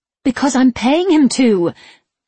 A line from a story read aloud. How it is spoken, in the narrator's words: she said, her voice rising